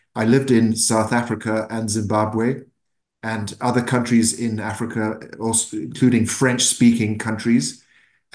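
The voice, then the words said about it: Mixed African, English and Irish accent. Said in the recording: “My accent is a mixture, but I was born in Africa, in Zimbabwe ... I lived in England and Ireland. My roots are Irish”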